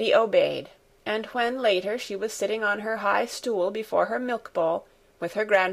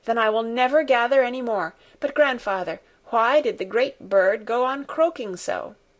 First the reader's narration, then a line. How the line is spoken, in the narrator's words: she continued in an eager tone of inquiry